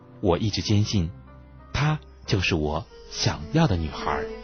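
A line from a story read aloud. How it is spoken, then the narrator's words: Timid, strained. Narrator (Chinese): 我咬咬牙，怯懦地说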